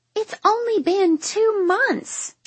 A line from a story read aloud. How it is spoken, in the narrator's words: she exclaims